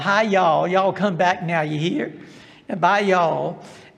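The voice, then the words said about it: Exaggerated Southern American accent. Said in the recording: “speak Southern with a Southern accent ... speaking with a Southern accent and Southern slang”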